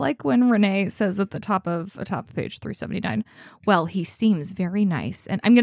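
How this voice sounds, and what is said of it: Usual voice. Nothing is said of it.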